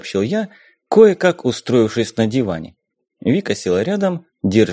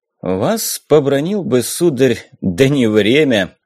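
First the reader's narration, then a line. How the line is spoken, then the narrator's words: Loud laughing. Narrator (Russian): захохотал Азов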